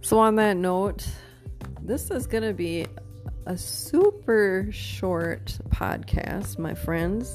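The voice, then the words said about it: Hoarse, tired voice. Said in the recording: “I'm losing my voice and I'm getting tired.”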